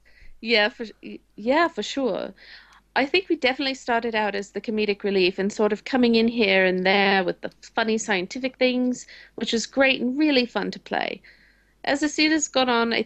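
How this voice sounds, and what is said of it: Bad British accent. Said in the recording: “that's the worst British accent ever. ... That was like New York call girl.”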